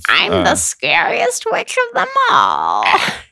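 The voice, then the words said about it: Put-on witch voice. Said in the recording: “everyone's witch voice”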